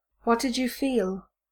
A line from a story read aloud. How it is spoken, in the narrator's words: Malfoy says quietly